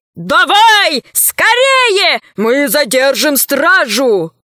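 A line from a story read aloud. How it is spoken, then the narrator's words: Crowd shouting. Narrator (Russian): многие кричали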